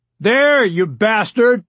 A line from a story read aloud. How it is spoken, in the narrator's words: Rebecca Klein's father shouted